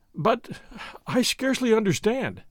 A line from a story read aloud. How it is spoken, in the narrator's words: Don Diego gasped